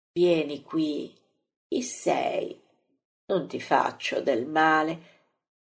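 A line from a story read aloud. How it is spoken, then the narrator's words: Gentle, sweet voice. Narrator (Italian): dice così dolcemente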